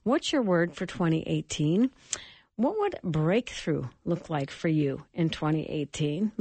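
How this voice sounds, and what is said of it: Tired voice, recovering from illness. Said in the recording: “give my voice just a little break ... I'm still on the tail end of this cold”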